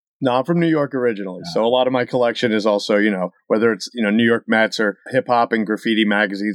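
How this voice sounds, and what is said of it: Mild accent between New York and Massachusetts. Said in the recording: “You don't really have a very thick Massachusetts accent ... the accent's kind of stuck in between somewhere in I-95”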